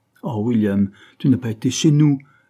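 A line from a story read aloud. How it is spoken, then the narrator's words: Frightened cry. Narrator (French): s'écria-t-elle, saisie de crainte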